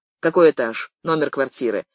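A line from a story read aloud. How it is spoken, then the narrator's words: Curt, suppressed agitation. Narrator (Russian): Отрывисто, стараясь побороть вновь возникшее волнение и в то же время не показать его, спросил Юрка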